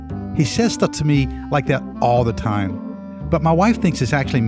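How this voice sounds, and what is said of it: Usual voice. Nothing is said of it.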